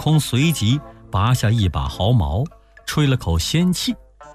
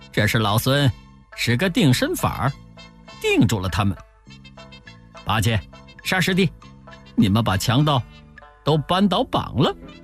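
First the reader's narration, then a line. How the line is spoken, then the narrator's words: Laughing. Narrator (Chinese): 悟空笑着说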